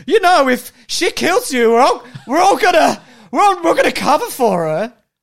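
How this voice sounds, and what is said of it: Good impression of the Flash. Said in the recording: “That's a good impression. Really good.”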